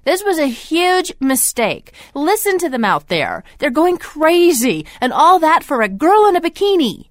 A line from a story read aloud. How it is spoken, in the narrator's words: exclaimed